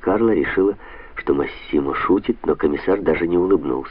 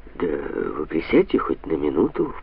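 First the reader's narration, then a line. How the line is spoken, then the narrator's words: Low-voiced request. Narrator (Russian): вполголоса попросила Анна Карла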